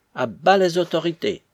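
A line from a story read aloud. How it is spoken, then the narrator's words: Eager energetic exclamation. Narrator (French): s'écria Sitnikov, heureux d'avoir une occasion de se prononcer énergiquement en présence d'un homme dont il était le très humble valet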